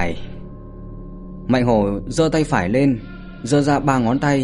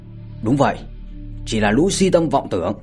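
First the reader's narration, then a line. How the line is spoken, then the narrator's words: Unhesitating echoing shout. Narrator (Vietnamese): Đôn Tử và Báo Tử không cần suy nghĩ mà quát theo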